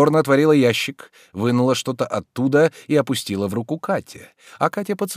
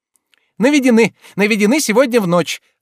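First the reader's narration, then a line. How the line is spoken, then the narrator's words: Joyful. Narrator (Russian): радостно сказала она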